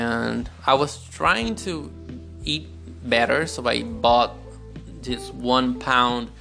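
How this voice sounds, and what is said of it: Usual voice. Nothing is said of it.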